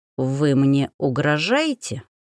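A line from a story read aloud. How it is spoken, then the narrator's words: Speaking through teeth. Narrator (Russian): процедил гусар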